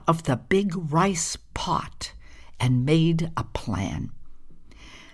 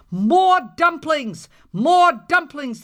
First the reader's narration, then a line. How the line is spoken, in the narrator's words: they shouted